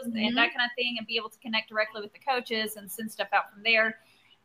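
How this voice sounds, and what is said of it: Southern American accent. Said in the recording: “I picked up on the Southern accent, girl. That's just a Southern thing.”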